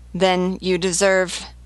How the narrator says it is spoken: Simordan stammered

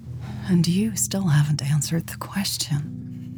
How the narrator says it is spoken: Mary replied breathlessly

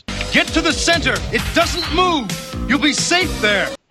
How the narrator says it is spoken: But Matt ends up yelling out

